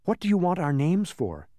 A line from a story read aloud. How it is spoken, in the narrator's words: asked Milo, looking anxiously